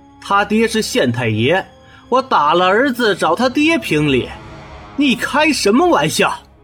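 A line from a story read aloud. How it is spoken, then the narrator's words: Sneering. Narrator (Chinese): 沈世仪 冷笑一声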